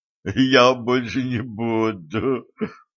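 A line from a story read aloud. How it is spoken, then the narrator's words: Groaning, breathless with laughter. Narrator (Russian): простонал, задыхаясь от смеха байкер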